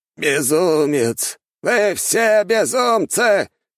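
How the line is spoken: Old man shouting. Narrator (Russian): прокричал старик

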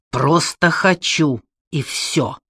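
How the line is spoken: Angry hiss. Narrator (Russian): сердито прошипел он

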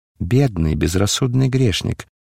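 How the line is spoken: Tender. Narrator (Russian): сказал он ласково

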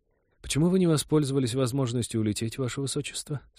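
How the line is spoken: Plain. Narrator (Russian): спросила Катерина

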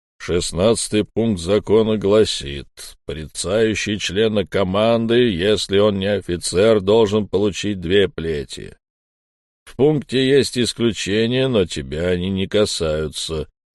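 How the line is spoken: Booming, dead man. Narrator (Russian): прогудел мертвец

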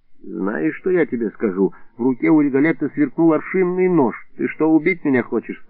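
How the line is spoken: Plain. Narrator (Russian): спросил я

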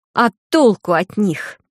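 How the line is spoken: Sudden angry spitting. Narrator (Russian): вдруг зло выплюнула она

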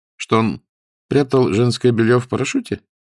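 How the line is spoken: Innocent-sounding voice. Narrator (Russian): Голос Иришки звучал невинно

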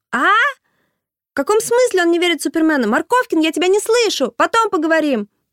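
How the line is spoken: Mother shouting. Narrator (Russian): прокричала мама

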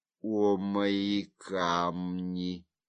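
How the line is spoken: Whisper. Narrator (Russian): шептал он

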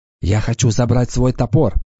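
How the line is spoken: Whisper. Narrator (Russian): шепнула она Уртоне

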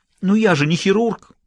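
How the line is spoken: Exclamation. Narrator (Russian): воскликнул Юджин

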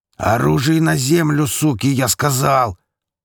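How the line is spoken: Bellowing like a buffalo. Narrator (Russian): проревел буйволом семифутовый

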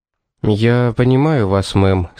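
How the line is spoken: Soft. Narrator (Russian): сказал он мягко

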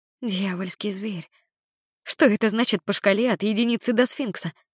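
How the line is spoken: Whispered. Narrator (Russian): прошептала

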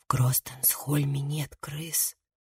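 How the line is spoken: Whispered answer. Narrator (Russian): ответила Лив шепотом

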